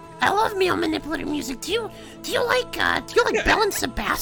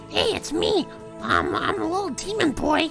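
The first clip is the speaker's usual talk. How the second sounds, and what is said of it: Good Marge Simpson cartoon voice. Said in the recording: “Your Marge Simpson voice is too good.”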